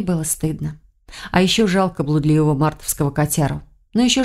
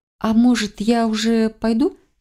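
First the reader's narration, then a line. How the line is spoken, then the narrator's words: Uncertain question. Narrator (Russian): Неуверенно спросила лекаря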